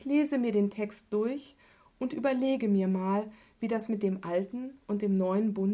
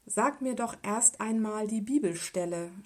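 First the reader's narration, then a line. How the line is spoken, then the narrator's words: Calm, on the phone. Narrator (German): sprach ruhig in den Telefonhörer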